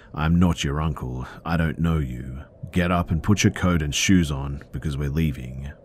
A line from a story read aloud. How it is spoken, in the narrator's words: My dad cut him off and stated very coldly